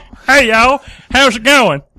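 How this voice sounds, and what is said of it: Put-on redneck accent, Kermit-like. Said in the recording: “different redneck accents that I could do ... That's a little too Kermit the Frog.”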